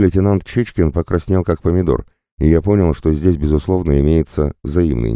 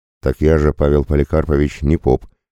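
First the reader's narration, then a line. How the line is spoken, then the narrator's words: Wry snort. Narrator (Russian): хмыкнул я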